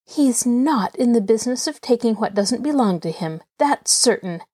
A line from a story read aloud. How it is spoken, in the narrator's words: Nancy retorted hotly